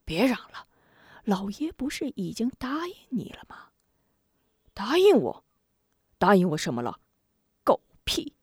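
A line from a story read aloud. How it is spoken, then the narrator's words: Hurried low voice. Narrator (Chinese): 许人急忙捂住沙里虎的嘴，小声说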